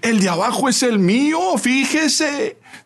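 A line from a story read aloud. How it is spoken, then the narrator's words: Very loud voice. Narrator (Spanish): La señora dio un brinco y en voz muy alta dijo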